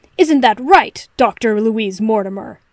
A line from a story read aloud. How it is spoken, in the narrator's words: Sherlock snapped